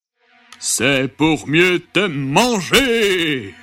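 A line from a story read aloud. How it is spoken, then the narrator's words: Wolf growling. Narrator (French): grogna le loup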